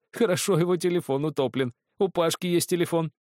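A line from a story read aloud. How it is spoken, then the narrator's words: Calm after laughter. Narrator (Russian): Девушка не удержалась и расхохоталась, затем успокоилась и добавила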